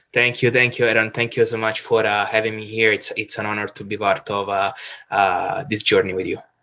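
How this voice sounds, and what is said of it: Italian accent. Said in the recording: “probably from my accent, you can hear that I am originally from Rome”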